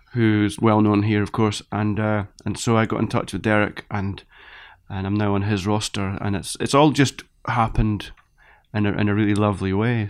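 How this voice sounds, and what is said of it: Scottish (Edinburgh) accent. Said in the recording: “I'm sure people will detect the Scottish accent in there... Edinburgh”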